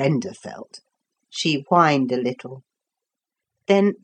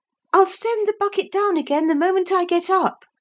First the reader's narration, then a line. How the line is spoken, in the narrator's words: Lucy called out